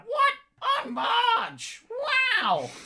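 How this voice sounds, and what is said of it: Impression of Marge Simpson's voice. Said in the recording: “It's a great reference. A really good impersonation there.”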